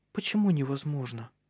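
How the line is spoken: Timid question. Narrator (Russian): робко спросила она, забыв о стыде

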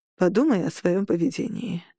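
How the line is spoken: Low calm voice. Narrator (Russian): ответил Берн низким, спокойным голосом

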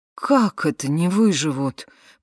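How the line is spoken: Shocked exclamation. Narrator (Russian): потрясенно воскликнул Сил

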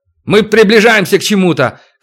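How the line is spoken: Shouting. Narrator (Russian): крикнул хозяин термоплана

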